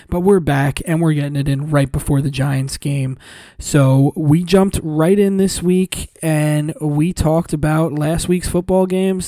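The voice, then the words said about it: Hoarse, strained voice. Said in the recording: “my voice is still a little shot”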